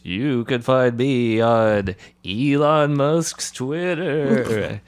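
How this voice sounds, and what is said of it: Spooky voice. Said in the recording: “spooky voice”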